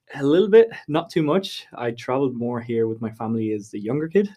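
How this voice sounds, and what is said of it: Slight Irish accent. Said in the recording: “I do have a little bit of an Irish accent”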